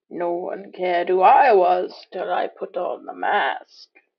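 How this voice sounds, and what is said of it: Bane villain voice impression. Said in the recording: “She did her Bane. She did a Bane impersonation. ... She dropped a Bane impersonation”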